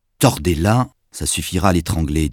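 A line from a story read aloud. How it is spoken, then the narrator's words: Plain. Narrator (French): dit Manuel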